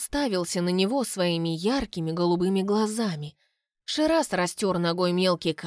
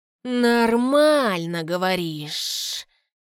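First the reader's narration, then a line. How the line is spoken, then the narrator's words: Drawled. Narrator (Russian): Протянул Саха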